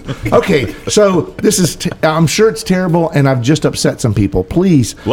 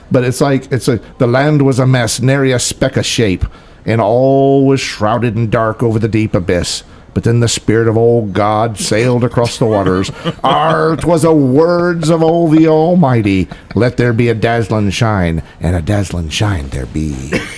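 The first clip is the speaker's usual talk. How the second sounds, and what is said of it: Put-on pirate accent. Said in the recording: “Love the accent, though. ... You cannot read that without putting on your best pirate accent.”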